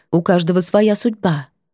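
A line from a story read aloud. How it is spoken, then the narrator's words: Dry, woman. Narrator (Russian): женщина просто сухо произнесет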